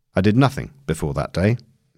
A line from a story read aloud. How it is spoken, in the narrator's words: he answered